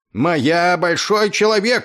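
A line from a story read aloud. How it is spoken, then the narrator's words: Yelling. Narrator (Russian): орал он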